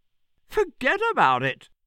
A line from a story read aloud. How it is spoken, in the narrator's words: said the sparrow again, affording himself another merry chuckle